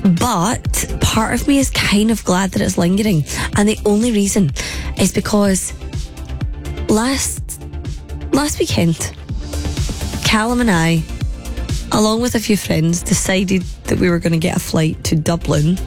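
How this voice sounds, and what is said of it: Hoarse, partly lost voice. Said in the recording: “a week on from losing my voice, I still sound like this. I've still got this lurgy.”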